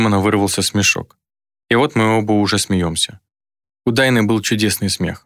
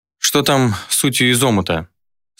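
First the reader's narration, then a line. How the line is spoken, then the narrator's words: Asked after laughing. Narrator (Russian): спросил, отсмеявшись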